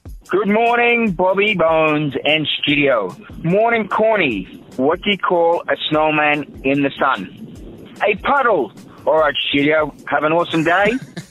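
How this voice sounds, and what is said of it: Australian accent. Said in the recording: “from Brisbane, Australia ... It's funnier with an accent.”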